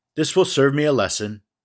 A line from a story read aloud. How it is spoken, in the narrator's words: said he